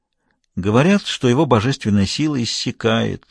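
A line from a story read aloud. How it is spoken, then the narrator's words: Trader woman's sigh. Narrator (Russian): вздохнула торговка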